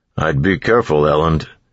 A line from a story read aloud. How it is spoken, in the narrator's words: Ham said with a chuckle